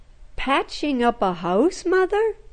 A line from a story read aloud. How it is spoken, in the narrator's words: laughed